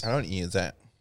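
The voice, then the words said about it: Imitates another person's voice. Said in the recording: “do my voice ... that's how I hear you ... you said it in your, like, your voice”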